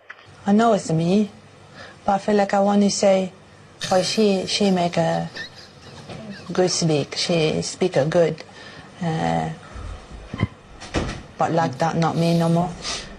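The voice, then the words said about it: Foreign-sounding accent. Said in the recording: “a voice she didn't recognise ... foreign accent syndrome”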